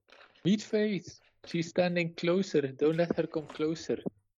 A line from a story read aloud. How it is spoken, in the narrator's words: I'm gonna yell